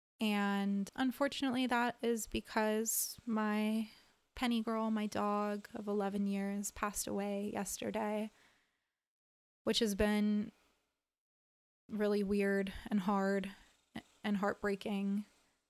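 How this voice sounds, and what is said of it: Low-energy, subdued voice. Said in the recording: “you can hear in my voice that I'm a little low energy, not the most vibrant, bubbly version of myself”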